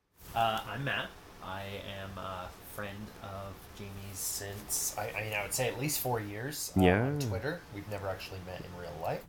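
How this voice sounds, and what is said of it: American accent. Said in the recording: “As you can probably tell from my accent, I am American.”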